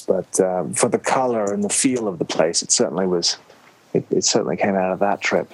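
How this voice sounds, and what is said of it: Slight accent. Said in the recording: “listeners can probably get a sense that you have a bit of an accent”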